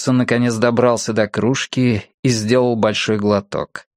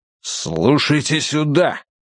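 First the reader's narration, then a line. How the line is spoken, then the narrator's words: Growled. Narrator (Russian): прорычал он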